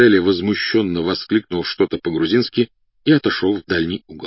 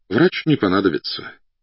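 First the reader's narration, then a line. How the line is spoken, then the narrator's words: Sighing. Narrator (Russian): вздохнул подполковник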